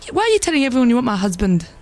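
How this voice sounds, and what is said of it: Poor imitation of another person's accent. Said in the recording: “a fake Dervla Kerwin ... Your accent's rubbish.”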